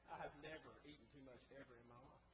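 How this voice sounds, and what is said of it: Sarcastic tone. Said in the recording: “note that was sarcasm there”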